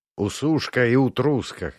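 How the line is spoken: Wry snort. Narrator (Russian): хмыкнул я

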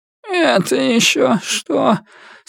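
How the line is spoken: Sleepy, annoyed grumble. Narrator (Russian): сонно проворчала она, недовольная тем, что ее разбудили

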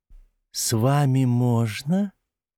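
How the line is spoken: Tender cooing voice. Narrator (Russian): услышал он нежный воркующий голос у себя за спиной

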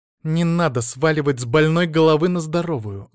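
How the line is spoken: Hissed. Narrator (Russian): зашипела Василиса

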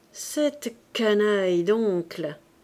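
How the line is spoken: Sneering laugh. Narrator (French): il ricanait, en confiant la vérité à Octave et à Trublot

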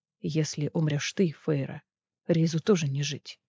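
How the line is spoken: Quiet conclusion. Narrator (Russian): тихо заключил Азриэль

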